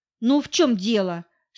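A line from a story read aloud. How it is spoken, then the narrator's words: Stern question. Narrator (Russian): строго спросила я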